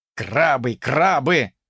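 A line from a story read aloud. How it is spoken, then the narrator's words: Grumbling. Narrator (Russian): проворчал я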